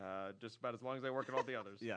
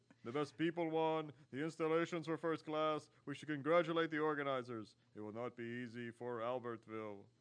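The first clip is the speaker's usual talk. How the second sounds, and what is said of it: Imitates another person's voice. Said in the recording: “that impersonation? ... It's good to hear Juan Antonio Samaran.”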